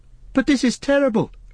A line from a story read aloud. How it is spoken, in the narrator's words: cried Frodo